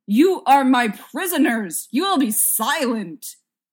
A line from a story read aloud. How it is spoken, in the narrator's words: Destruction yelled